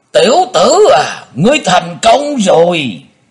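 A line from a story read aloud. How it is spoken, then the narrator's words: Resounding shout. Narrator (Vietnamese): Tiếng thét này vang dội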